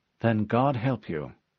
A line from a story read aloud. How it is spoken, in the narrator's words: the AI replied gravely